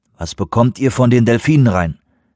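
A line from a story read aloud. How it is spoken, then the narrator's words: Plain. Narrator (German): fragte Grey Wolf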